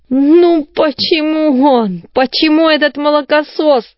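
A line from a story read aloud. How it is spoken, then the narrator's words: Groan. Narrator (Russian): простонал Калибан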